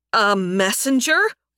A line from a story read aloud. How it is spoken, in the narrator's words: an analyst blurted out